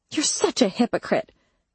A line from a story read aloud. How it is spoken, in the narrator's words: I snapped